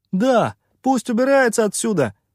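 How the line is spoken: Shout from behind. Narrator (Russian): выкрикнул кто-то из-за его спины

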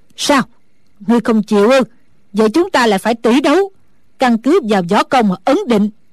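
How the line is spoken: Old woman's angry shout. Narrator (Vietnamese): Sử Bà Bà tức giận quát lên

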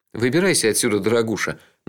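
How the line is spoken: Mocking, to himself. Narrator (Russian): насмешливо сказал я себе

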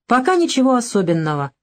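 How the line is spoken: Grunted. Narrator (Russian): хмыкнул

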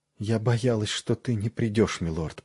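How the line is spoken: Whispered. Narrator (Russian): прошептала она

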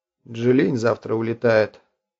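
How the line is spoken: Level voice. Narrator (Russian): ровным голосом сказал Стайрон

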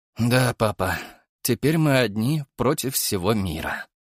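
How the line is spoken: Sighing. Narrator (Russian): вздохнул я

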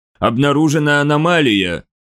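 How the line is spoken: Low droning voice. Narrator (Russian): прогудел один из подчиненных Карафи

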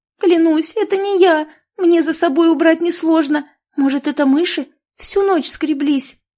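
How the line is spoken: Pleading, near tears from fear. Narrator (Russian): С мольбой в голосе проговорила Маруся, чувствуя, что сейчас разрыдается от страха

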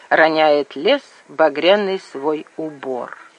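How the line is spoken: Quiet heartfelt recitation. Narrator (Russian): генералу, который тихо и проникновенно произносил

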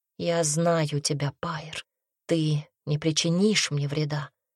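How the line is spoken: Soft. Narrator (Russian): мягко сказала она

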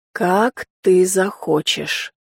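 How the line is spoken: Quiet, slightly hoarse. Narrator (Russian): ответил он тихо и почему-то немного хрипло

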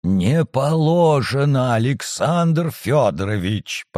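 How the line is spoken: Hoarse, almost pleading. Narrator (Russian): почти умоляюще просипела она

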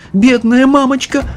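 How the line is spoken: Sobbing. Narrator (Russian): всхлипнула миссис Бакет

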